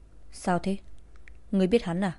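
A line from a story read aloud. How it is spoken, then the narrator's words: Quiet question. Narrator (Vietnamese): Yến Kỳ nhỏ giọng hỏi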